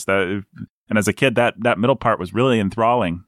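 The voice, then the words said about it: Sarcastic delivery. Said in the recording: “I'm being sarcastic”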